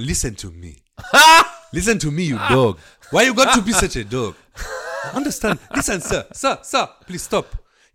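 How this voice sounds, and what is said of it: Put-on Nigerian accent. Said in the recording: “Nigerian African, like African”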